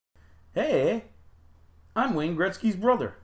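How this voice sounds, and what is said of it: Weak attempt at Canadian accent. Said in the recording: “I don't think I can do a Canadian accent... It just keeps getting worse.”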